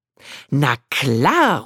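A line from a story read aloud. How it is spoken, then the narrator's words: Beaming, called out. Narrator (German): ruft mein neuer Freund strahlend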